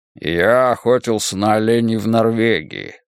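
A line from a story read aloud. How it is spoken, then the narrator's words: Deep bass voice. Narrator (Russian): пробасил Лоуренс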